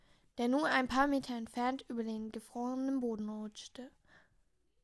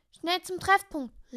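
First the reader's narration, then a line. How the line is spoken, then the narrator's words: Call. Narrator (German): rief Mr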